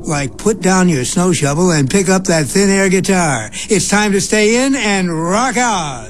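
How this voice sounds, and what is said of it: Radio DJ voice. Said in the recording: “radio voice”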